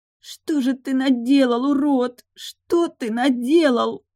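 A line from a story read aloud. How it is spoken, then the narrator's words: Sobbing. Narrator (Russian): рыдала она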